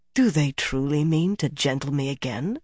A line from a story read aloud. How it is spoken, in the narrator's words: His voice was quiet, his tone injured and angry